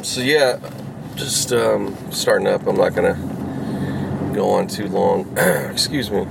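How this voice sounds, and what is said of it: Raspy just-woke-up voice. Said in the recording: “Sorry for the raspy. I'm just, of course, I just woke up a little while ago.”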